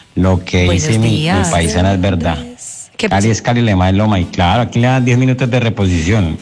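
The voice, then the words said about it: Colombian Caleño accent. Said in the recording (Spanish): “ese acento tan lindo, mi amor ... ¿cómo sonará el himno de Caleño?”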